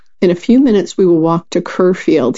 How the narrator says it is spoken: he said

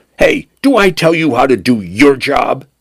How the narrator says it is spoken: Penn snapped

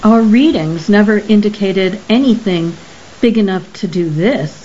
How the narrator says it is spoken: Cromlech said

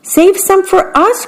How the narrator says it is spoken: cried the small birds

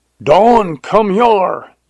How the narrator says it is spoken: yelled Jones

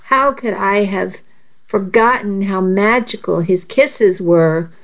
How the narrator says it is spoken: I moaned softly

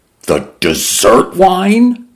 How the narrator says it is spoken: Mendoza cried

